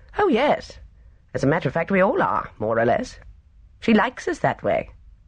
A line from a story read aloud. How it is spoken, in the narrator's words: Stephen replied cheerfully